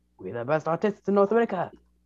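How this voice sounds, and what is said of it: Put-on Italian accent. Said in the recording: “Can you drop the accent? ... Drop the accent. We're not in Italy.”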